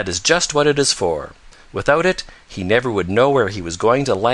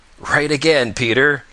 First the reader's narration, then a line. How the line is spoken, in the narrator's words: laughed Old Mother Nature